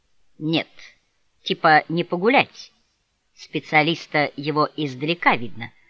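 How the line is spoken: Mock-respectful declaration. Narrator (Russian): заявил великан притворно уважительным тоном

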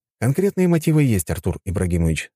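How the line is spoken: Calm reply. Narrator (Russian): спокойно ответил я

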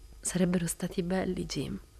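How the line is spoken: Sobbing. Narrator (Italian): ebbe un singhiozzo

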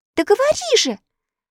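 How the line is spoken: Impatient exclamation. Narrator (Russian): нетерпеливо воскликнула Элли

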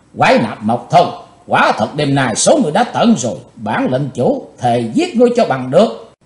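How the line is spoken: Hateful shout. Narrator (Vietnamese): Chàng thét với giọng căm thù

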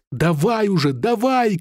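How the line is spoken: Shouted. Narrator (Russian): крикнула она

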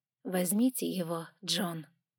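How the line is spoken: Soft motherly woman. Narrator (Russian): произнесла герцогиня мягко, почти по-матерински

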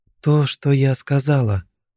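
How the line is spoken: Calm reply. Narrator (Russian): ответила Алина уже спокойно

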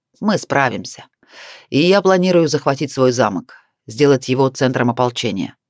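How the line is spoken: Calm telling. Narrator (Russian): спокойно поведал Барс

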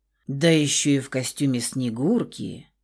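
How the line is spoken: Low-voiced man. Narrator (Russian): Проговорил низким голосом оголенный по пояс мужчина

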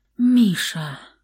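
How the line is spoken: Young woman's faint fading whisper. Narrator (Russian): Только и смогла прошептать девушка, прежде чем погрузиться во тьму

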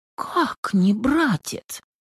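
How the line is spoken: Anxious whisper. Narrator (Russian): тревожный шепот Сусанны

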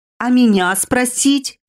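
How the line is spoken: Howling wail. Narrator (Russian): Взвыла

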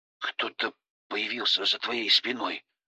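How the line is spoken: Uncertain mumble after swallowing. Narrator (Russian): сглотнув неуверенно, пробормотал Коля

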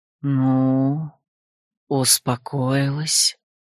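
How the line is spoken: Soft ghostly breath. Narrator (Russian): Тихо дохнул призрак

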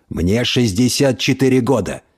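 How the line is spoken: Barked. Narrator (Russian): рявкнул Альф

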